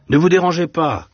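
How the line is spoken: Shouting. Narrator (French): cria le drapier

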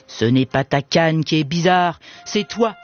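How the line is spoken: Sneering. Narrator (French): ricana Compère Gredin

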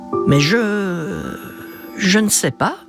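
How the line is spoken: Stammered. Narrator (French): bredouille-t-elle

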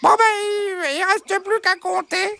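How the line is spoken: Exclaiming. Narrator (French): s'exclama Bernadette

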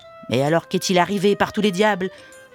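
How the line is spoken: Shouting. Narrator (French): vociféra Commère Gredin

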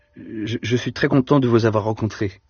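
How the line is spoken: Stammering at last. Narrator (French): finit par balbutier Deloche, qui se décida à parler le premier

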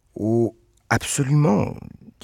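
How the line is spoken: Plain. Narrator (French): dit Reggie

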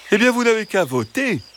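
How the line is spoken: Fox exclaiming. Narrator (French): s'exclama le renard

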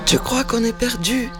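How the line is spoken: Trembling voice. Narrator (French): demande Lamaï d'une voix tremblante

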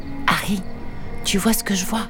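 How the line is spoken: Soft cautious murmur. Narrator (French): Harry répondit à sa sœur en murmurant pour ne pas effrayer l'apparition

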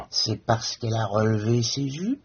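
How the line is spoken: Mocking, fluting voice. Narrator (French): persifla le père d'une voix de flûte

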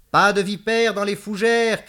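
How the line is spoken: Shouted. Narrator (French): cria-t-elle

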